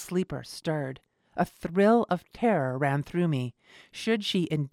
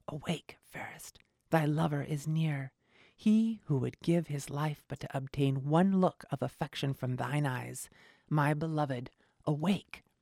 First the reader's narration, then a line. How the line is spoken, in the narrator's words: I whispered